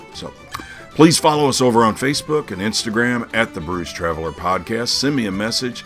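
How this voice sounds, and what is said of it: Rough, unwell-sounding voice. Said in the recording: “sorry about the voice. Believe you me, I sound worse than I really am.”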